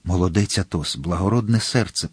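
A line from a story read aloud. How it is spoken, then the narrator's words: Whispering. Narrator (Ukrainian): прошепотів Д'Артаньян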